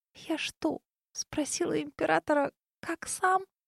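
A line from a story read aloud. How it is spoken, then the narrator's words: Barely audible whisper. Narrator (Russian): еле слышно прошептала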